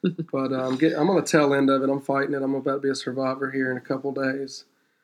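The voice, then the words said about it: Hoarse, strained voice. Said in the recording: “sorry about my voice ... a little smaller case of laryngitis”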